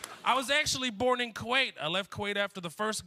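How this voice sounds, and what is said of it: Usual voice. Nothing is said of it.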